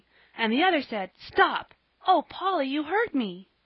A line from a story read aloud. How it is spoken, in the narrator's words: she cried, held her so tightly she could hardly breathe